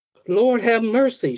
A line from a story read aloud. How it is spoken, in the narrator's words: she cried